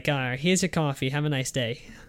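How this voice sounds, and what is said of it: Weak imitation of a Boston accent. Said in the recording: “there's a guy there who has a Boston accent ... I have a crappy Bostonian accent.”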